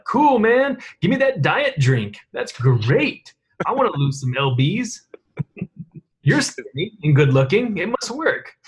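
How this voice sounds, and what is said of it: Imitation of an Instagram influencer. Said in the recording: “your young person impersonation? ... No, that's like my Instagram impression.”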